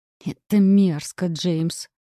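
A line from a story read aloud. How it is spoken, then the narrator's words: Hissed. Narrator (Russian): прошипела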